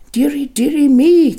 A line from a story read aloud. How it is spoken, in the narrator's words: cried my mother